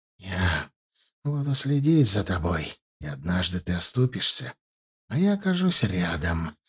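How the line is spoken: Hissed at enemy. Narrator (Russian): прошипел он вслед своему врагу

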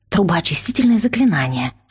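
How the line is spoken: Whisper. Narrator (Russian): шепнула я

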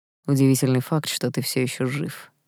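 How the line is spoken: Through gritted teeth. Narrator (Russian): процедил принц

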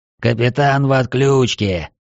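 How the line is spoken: Growled. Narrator (Russian): прорычал громобой

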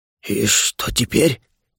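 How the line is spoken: Quiet panicked voice. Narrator (Russian): тихо паниковал дух

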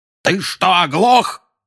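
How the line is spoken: Yelling. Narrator (Russian): заорал дядя Вернон

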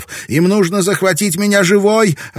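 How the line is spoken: Desperate shouting. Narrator (Russian): отчаянно кричала Марика

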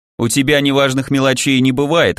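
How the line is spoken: Wry snort. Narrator (Russian): хмыкнул маг

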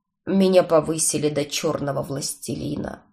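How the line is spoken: Grumbled. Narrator (Russian): буркнул он

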